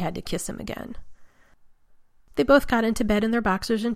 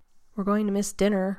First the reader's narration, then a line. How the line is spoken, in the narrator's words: complained sleepily